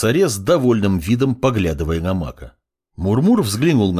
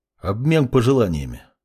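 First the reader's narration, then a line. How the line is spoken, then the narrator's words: Calm. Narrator (Russian): спокойно произнес темный ученик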